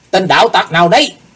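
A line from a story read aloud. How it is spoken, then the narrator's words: Shouted in unison. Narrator (Vietnamese): Hai tên cao thủ đồng quát lên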